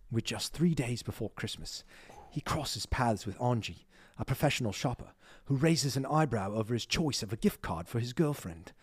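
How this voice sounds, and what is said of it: Put-on British accent. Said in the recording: “Should I read it with a British accent?... Yes, you have to.”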